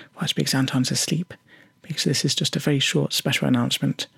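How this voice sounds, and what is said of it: Whispering. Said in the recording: “You may also be wondering why I'm whispering.”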